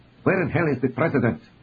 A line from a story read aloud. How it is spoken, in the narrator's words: Daniel Tequina asked irritably